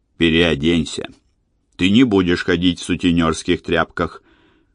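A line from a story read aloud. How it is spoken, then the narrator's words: Gloomy. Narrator (Russian): Джордж мрачно произнес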